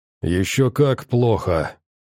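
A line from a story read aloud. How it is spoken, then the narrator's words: Hoarse wheeze. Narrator (Russian): прохрипел Вронский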